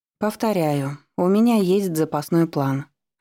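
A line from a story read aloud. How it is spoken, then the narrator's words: Plain. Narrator (Russian): ответила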